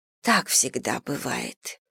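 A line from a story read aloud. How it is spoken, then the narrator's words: Breathless exhale. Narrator (Russian): выдохнула миссис Бантинг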